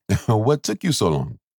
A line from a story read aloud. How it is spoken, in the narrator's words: Coop laughed